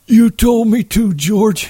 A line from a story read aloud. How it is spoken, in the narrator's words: he said miserably